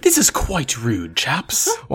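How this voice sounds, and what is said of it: Mock posh English accent. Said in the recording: “English accents”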